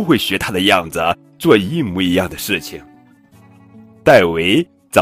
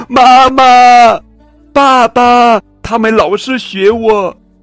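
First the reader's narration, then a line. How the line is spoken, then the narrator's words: Shouting. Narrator (Chinese): 戴维大叫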